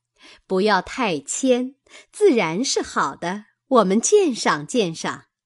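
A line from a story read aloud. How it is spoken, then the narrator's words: Group, laughing. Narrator (Chinese): 众人笑道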